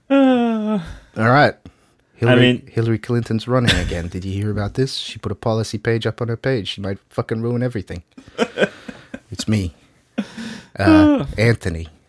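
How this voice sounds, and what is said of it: New York accent at normal volume. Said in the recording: “the normal volume New Yorker ... I'm from New York. I come from Queens originally. I've obviously spent some time in Long Island, as you can tell by my voice. And I speak at a normal volume.”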